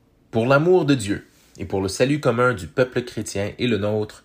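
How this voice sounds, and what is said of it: French Canadian accent. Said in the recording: “my French Canadian accent”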